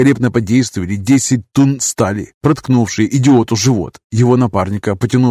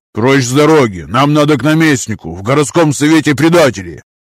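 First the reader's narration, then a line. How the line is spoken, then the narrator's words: Barked. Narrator (Russian): Рявкнул бывший штрафник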